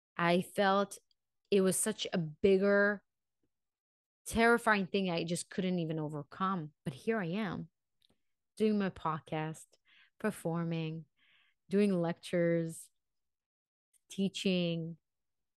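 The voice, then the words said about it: Non-native English accent. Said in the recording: “Yes, I have accent. Yes, my English is not 100% perfect.”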